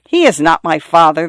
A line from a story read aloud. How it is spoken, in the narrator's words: the girl replied scornfully